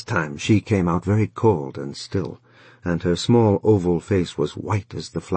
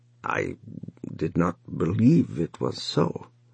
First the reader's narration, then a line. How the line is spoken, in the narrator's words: the son said at last in a thick, uneven voice